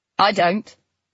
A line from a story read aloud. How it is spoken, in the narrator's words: Nina said flatly